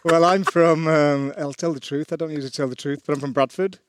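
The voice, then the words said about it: Soft Northern English accent. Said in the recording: “your accent's from ... I don't really have a Bradford accent anymore. I have like a Northern accent”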